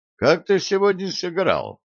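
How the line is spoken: Plain. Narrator (Russian): спросил Флеминг

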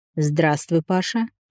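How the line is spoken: Calm. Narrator (Russian): начал тот спокойно

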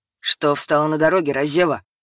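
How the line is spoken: Barking. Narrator (Russian): рявкнул

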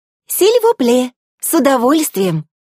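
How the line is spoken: Exclamation. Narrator (Russian): воскликнула Элла

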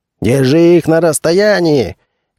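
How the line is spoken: Shouting. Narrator (Russian): крикнул Хали

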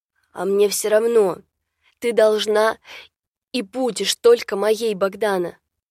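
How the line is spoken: Bestial growl. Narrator (Russian): прорычал Радомир, словно в него вселился зверь какой

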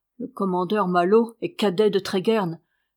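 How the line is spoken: Stern retort. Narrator (French): repartit Étienne d'un ton sévère

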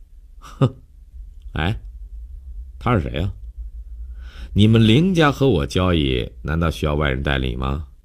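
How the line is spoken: Sneering, pointed question. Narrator (Chinese): 江帆看看悠悠，冷笑了一下，故意对林信成问道

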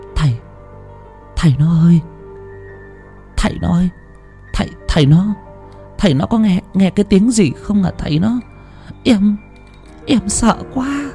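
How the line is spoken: Trembling, frightened stammer. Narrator (Vietnamese): Bà Thủy vẫn đang run run rẩy rẩy, kéo cao tấm chăn mỏng chùm kín người, ngồi sát nép lại bên chồng mà lắp bắp

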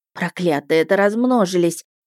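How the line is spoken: Dejected voice. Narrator (Russian): упавшим голосом сказала Вишана

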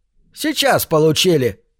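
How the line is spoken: Gloomy innkeeper reply. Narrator (Russian): мрачно ответил трактирщик

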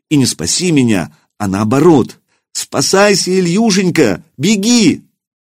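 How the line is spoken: Alarmed shout. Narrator (Russian): Лиска закричала

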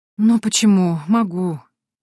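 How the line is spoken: Heavy sigh. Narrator (Russian): тяжело вздохнула я

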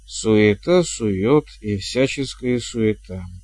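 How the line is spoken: Hesitant reading. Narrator (Russian): неуверенно зачитала она

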